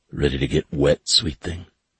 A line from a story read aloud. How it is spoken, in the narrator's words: he asked in the gravelly voice